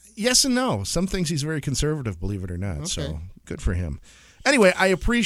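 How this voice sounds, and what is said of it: Usual voice. Nothing is said of it.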